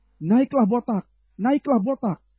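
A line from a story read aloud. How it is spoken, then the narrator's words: Children's mocking shouts. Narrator (Indonesian): mencemoohkan dia serta berseru kepadanya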